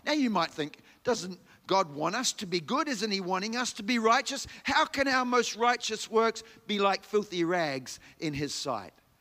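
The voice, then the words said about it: New Zealand accent. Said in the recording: “if you haven't picked up from my accent already, I was born in New Zealand”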